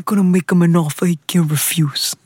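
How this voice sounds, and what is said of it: Muffled, mumbly gangster voice. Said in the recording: “your best Don Corleone impression ... Why do you feel like you have cannoli in your mouth when you say ... the cotton balls”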